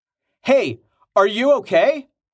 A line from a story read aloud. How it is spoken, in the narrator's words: Rain shouted